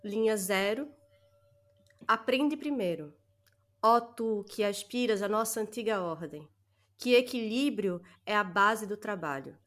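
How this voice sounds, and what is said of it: Speaks with a noticeable accent. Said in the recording (Portuguese): “a nossa audiência gosta da sua voz ... É coisa de sotaque. O povo gosta de sotaque. É fetiche de sotaque.”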